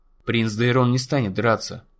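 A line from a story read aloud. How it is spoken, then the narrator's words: Plain. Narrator (Russian): сказал Дунк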